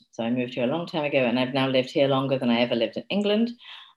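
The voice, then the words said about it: English accent. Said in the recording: “I'm from England ... I don't know why the accent has stuck, but it has.”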